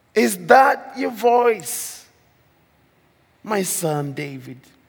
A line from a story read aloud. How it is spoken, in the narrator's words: Saul lifted up his voice and wept